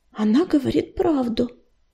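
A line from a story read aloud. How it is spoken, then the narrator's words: Soft confirmation. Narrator (Russian): мягко подтвердила Листвечка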